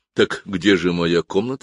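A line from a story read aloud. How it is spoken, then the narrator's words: Plain. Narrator (Russian): спросил я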